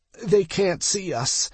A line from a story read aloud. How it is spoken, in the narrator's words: I croaked